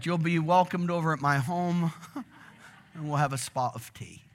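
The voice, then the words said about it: Put-on English accent. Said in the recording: “Just practicing my English accent.”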